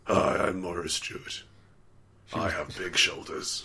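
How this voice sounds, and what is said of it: Imitates another person's voice. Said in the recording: “What did her voice sound like? Was it like this? ... That's the one.”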